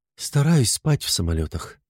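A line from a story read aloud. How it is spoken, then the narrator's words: Calm woman's voice. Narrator (Russian): уже спокойно заговорила женщина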